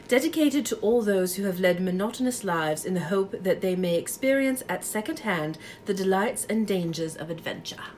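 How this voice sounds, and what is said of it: Put-on British accent. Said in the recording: “read it in a British accent”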